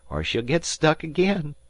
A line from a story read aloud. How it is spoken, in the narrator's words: he said, laughing